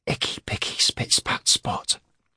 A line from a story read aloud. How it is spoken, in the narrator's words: Cade whispered urgently